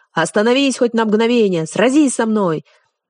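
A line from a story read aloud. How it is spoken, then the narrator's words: Frantic shouting after someone. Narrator (Russian): Как безумный кричал вслед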